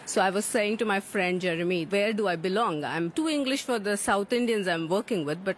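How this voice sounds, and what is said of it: Different, non-British English accent. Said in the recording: “I again have a different accent.”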